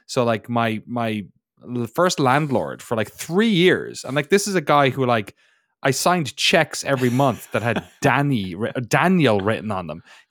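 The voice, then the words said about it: Irish accent. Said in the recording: “in my way I say it with my Irish accent”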